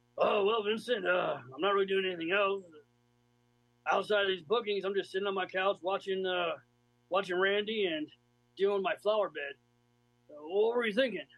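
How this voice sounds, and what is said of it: Deliberately bad Bob Orton impression. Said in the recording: “in my best, worst Bob Orton impersonation”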